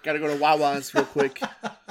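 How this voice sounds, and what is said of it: Put-on Boston accent. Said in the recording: “your Philly accent. ... I was Boston.”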